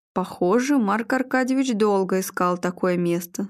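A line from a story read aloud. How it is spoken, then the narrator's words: Plain. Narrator (Russian): сказал Игорь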